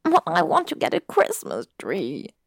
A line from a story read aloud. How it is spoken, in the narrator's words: he whined